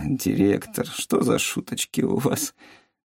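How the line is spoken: Laughing. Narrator (Russian): Засмеялась Юмин

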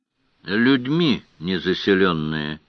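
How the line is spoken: Gloomy reply. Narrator (Russian): мрачно ответил Певер

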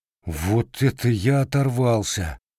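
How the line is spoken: Grumbled to himself. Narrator (Russian): буркнул он про себя

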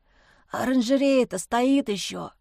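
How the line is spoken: Hoarse, sleepy voice. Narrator (Russian): хриплым сосна голосом спросил он

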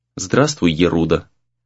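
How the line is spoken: Calm. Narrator (Russian): спокойно произнес Сагюнаро

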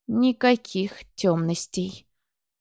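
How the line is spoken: Strained through teeth, nauseous. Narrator (Russian): процедила я, борясь с очередным рвотным позывом

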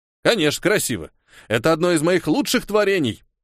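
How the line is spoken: Smug snort. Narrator (Russian): Самодовольно хмыкнул Хильдефон

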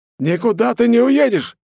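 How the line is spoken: Upset, humiliated shout. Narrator (Russian): закричал расстроенный и опозоренный Рафаэль

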